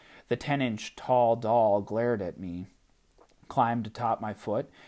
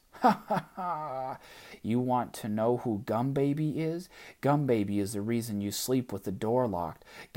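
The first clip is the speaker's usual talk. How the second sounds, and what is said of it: Tiny doll character voice laughing. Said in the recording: “She laughed in her tiny voice.”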